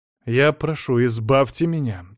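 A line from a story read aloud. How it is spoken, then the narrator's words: Angry man. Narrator (Russian): сердито сказал адвокат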